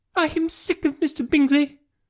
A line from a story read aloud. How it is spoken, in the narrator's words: cried his wife